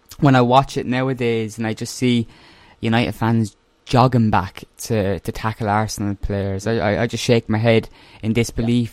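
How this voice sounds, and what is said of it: Irish accent. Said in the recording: “I probably sound like Roy Keane with my Irish accent”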